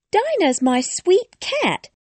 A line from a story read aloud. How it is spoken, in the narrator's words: Alice replied eagerly